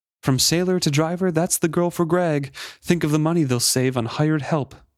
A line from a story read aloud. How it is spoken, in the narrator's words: cried someone in the crowd